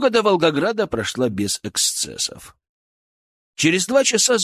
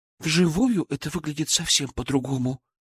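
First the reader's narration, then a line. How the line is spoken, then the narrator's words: Trembling voice. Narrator (Russian): дрожащим голосом произнесла Даша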